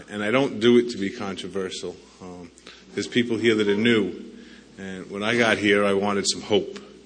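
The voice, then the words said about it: New York accent. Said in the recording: “my accent's from New York”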